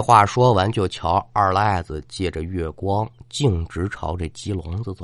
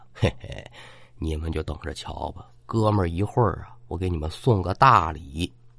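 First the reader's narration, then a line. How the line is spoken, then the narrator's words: Soft chuckling voice. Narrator (Chinese): 他嘿嘿一笑，轻声的可就说呀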